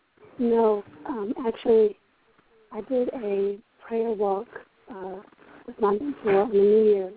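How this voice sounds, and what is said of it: Slightly hoarse voice. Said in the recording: “why are you hoarse? ... I lost my voice. It's just a little hoarse.”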